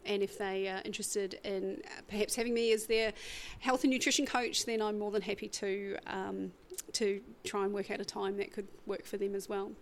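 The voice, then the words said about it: Strong regional accent. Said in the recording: “I've even managed to understand some of your accent.”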